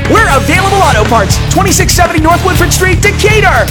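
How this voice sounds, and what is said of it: Loud yelling ad delivery. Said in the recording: “I'll stop yelling”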